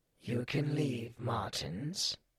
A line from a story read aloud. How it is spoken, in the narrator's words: he wheezed